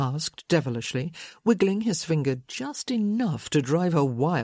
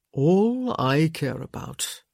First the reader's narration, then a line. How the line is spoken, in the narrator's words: he said thickly